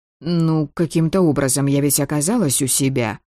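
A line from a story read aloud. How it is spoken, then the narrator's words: Grumble. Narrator (Russian): буркнула я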